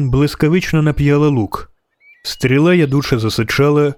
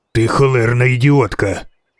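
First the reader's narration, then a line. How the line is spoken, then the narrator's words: Hissing. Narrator (Ukrainian): просичав відьмак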